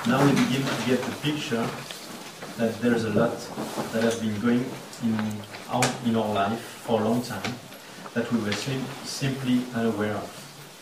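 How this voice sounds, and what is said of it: French accent. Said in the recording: “With my French accent.”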